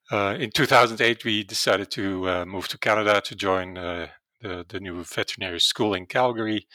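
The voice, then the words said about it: Dutch accent in English. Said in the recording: “originally, I'm from the Netherlands, and that's probably where my accent comes from and cannot get rid of that”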